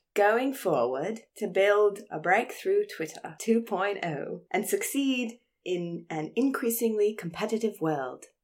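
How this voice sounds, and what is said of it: Failed South African accent, sounds British. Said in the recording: “Do a South African accent. ... No, it's British. ... It's gone British again.”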